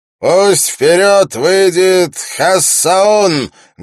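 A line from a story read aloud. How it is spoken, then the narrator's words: Loud announcement. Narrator (Russian): громко объявил он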